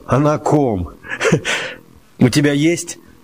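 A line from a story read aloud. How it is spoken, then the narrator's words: Laughing. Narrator (Russian): Лёшка засмеялся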